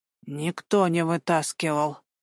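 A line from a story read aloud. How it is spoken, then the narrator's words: Barely audible reply. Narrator (Russian): еле слышно ответил Николай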